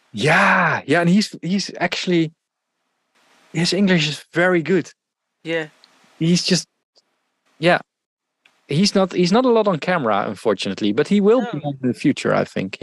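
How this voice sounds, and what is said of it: Dutch accent in English. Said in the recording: “I really like your accent. I like a Dutch accent”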